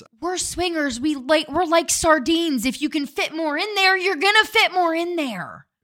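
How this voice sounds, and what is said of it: Loud, yelling voice. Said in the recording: “you're yelling ... you keep yelling ... I am like maxing it out”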